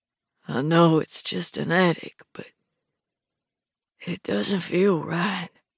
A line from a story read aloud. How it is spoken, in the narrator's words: Cedar says, his voice husky